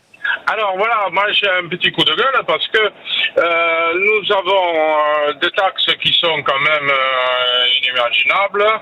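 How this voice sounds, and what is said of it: Regional French accent. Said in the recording (French): “on l'entend à votre accent”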